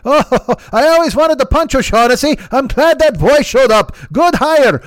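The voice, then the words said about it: Put-on Irish accent. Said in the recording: “I can't believe I'm going to do this accent the whole fucking time. Is this a good Irish accent.”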